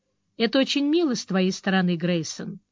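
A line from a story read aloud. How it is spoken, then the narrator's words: Dry reply. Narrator (Russian): сухо ответила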